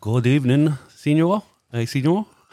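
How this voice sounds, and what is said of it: Put-on foreign accent, hard to place. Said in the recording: “The man of a thousand accents is back... the game is to work out which country he is attempting to do the accent from”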